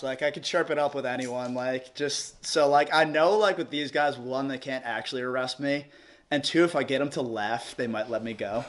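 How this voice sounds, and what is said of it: New York accent. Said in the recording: “they hear the New York accent”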